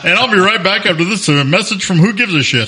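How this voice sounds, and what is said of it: Official announcer voice. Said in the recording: “I like the official voice there. ... That's a normal announcer voice.”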